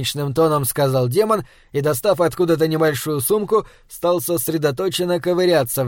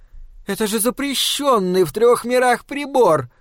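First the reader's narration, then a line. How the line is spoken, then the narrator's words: Exclaimed. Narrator (Russian): воскликнула Соня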